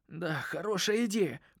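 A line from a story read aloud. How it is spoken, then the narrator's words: Hoarse. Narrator (Russian): прохрипел я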